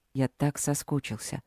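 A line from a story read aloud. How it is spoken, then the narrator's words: Quiet. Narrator (Russian): сказал он тихо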